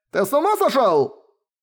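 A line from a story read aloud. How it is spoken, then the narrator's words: Desperate yell. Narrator (Russian): Завопил один из телохранителей, отчаянно пытавшихся урезонить свое божество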